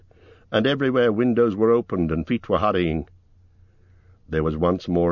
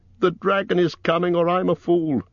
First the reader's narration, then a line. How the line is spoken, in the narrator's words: he cried